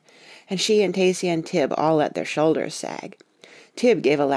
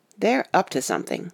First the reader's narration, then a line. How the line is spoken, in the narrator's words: Katie said firmly